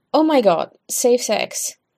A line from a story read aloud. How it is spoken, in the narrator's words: Stiles blurts out